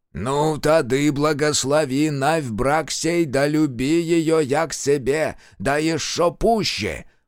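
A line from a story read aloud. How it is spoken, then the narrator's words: Sudden priest-like bass. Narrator (Russian): По-поповски забасил вдруг сухощавый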